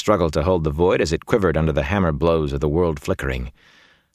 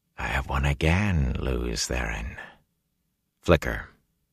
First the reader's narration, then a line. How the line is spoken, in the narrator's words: he heard a voice whisper